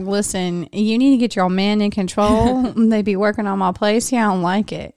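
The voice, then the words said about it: Weak put-on Southern Georgia accent. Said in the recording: “that's my great Georgia ghost accent. I don't know. That's not even like Southern at all.”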